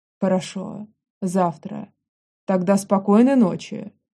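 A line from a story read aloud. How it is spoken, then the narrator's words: Muffled reply. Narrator (Russian): Глухо отзывается он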